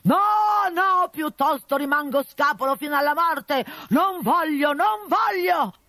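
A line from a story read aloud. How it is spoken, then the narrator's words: Shouting. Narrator (Italian): gridando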